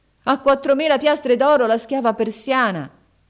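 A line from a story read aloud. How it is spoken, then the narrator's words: Loud shout. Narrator (Italian): Haji Hassan gridò ad alta voce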